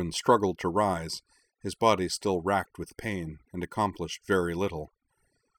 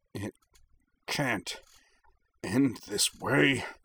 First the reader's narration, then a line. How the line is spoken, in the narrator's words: snarled, hot tears of pain and frustration